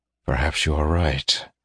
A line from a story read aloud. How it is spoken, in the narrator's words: he said softly